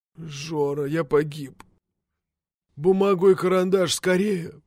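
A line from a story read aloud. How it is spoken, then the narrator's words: Hoarse rasp. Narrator (Russian): прохрипел он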